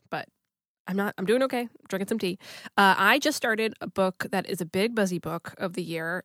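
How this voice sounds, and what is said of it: Sick-sounding voice. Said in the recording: “listeners can probably tell by the sound of my voice that I'm a little bit sick... my voice sounds,... I sound kind of like David Lynch”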